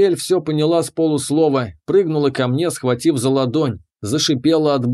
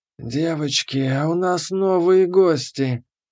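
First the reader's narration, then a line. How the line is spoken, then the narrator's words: Hissing from the darkness. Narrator (Russian): Послышалось из тьмы шипение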